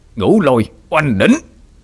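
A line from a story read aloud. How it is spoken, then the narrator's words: Loud roar. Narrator (Vietnamese): Bác gầm lớn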